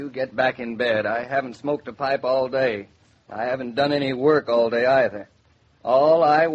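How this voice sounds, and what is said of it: Usual voice. Nothing is said of it.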